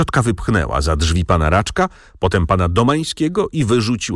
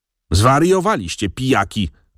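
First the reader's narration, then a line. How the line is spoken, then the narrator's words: Aunt shouting. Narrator (Polish): krzyknęła ciotka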